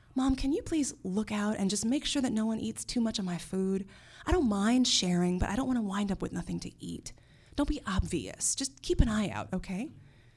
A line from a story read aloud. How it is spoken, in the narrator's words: whispered to her